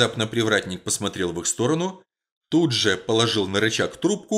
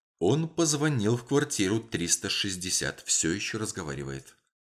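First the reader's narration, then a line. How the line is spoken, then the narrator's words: Whisper. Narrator (Russian): Делла Стрит прошептала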